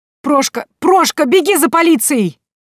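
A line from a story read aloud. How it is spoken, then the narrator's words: Shrill shriek. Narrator (Russian): раздался визгливый голос Тимофея Яковлевича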